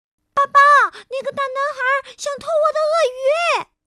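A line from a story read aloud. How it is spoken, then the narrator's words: Sudden yell. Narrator (Chinese): 他立刻大叫起来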